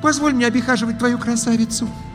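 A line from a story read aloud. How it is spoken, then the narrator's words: Young witch pleading. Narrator (Russian): взмолилась ведьмочка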